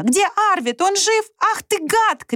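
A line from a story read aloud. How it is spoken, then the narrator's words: Sudden shout. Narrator (Russian): крикнула вдруг я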